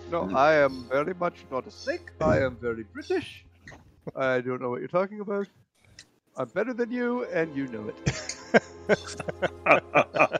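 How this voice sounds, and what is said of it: Weak put-on British accent. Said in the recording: “You gotta work on your British accent, man.”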